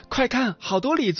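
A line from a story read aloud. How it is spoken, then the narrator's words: Child shouting loudly. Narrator (Chinese): 一个孩子 大声喊道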